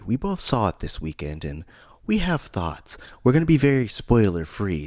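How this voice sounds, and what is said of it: Mellow public-radio style voice. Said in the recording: “I'm using my NPR voice today ... wow, this is super mellow ... that intonation”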